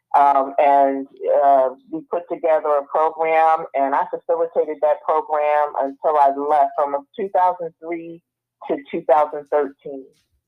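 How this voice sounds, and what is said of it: Northern US New Jersey accent. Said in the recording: “I hear a northern accent? ... I'm originally from New Jersey”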